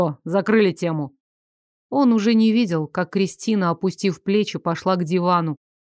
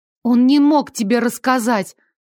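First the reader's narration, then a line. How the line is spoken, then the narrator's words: Frightened. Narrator (Russian): испуганно сказала Кристи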